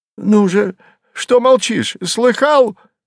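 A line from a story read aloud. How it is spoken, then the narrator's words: Shouting woman. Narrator (Russian): закричала дама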